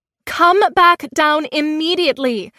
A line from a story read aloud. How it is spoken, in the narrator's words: I shouted up to him